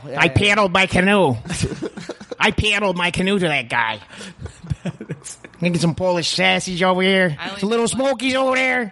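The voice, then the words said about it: Put-on Chicago accent. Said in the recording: “Chicago ... She have that fucking accent?”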